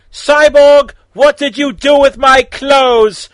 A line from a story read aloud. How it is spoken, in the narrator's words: Raven screamed